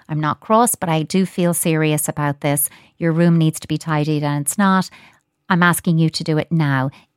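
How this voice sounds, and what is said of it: Serious, gentle but firm voice. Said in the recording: “I'm using my serious voice ... talk gently yet firmly”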